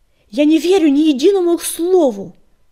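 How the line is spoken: Yelling. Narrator (Russian): заорал черный коготь

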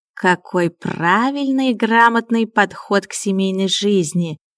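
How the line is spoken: Cozy purr. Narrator (Russian): уютно мурлыкнул Миун

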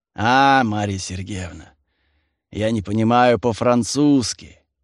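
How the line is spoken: Grumbling. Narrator (Russian): проворчал Авдей

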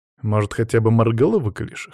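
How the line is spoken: Snorting. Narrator (Russian): хмыкнул я

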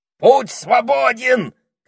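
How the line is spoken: Parrot's shout. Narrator (Russian): крикнул попугай

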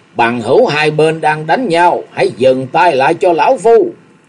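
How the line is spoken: Old man, loud. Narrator (Vietnamese): Lão nhân râu bạc lúc này lớn tiếng nói

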